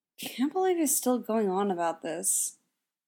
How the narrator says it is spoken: mumbles, mostly just to have said something

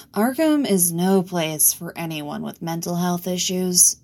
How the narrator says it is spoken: Riddler replied with a sigh

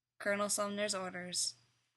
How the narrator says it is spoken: he said flatly

